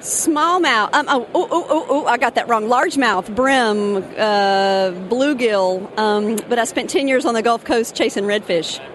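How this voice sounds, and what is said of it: Southern US accent, Alabama. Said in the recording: “North Carolina accent there? ... Alabama.”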